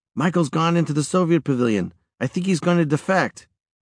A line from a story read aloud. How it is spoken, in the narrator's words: my brother Paul exclaimed